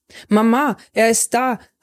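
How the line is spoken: Joyful call. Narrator (German): rief ich vor Freude

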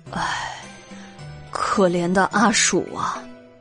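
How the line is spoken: Sighing. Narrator (Chinese): 袁耀也叹道

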